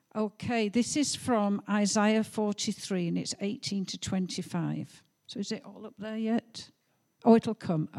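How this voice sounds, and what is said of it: Yorkshire northern English accent. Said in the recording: “As you can tell, I am a northerner ... I do have a Yorkshire accent.”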